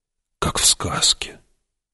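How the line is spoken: Whisper. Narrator (Russian): прошептал Пауль

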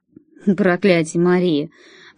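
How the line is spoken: Mumbled. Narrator (Russian): промямлил он

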